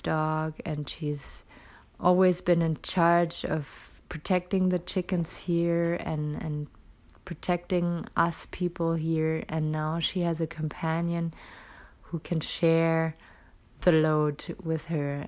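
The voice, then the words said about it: Tired, lower-pitched voice. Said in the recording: “I sound a little exhausted today ... my voice is a little lower than usual”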